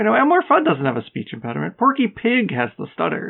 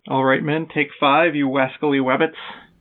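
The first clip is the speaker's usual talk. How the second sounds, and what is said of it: Elmer Fudd cartoon voice impression. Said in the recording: “this could be him. Elmer Fudd has a speech impediment”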